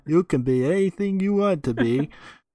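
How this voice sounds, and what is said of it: Gal Gadot impression. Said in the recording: “I love that Gal Gadot impression.”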